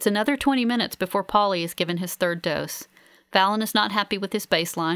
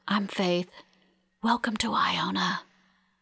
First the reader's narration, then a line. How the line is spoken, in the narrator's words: I lean over him and whisper